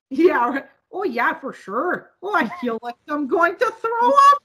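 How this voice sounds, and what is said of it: Put-on Minnesotan Norwegian-style accent. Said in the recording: “We don't talk like that. That's Minnesotans. ... It's a Norwegian accent.”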